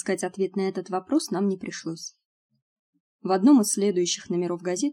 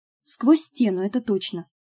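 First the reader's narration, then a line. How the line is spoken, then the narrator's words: Exclamation. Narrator (Russian): воскликнула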